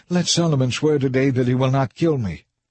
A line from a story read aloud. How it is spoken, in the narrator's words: he was pleading